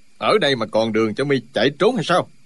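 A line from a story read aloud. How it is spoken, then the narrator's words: Angry shout. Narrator (Vietnamese): Chu Trường Linh quát lên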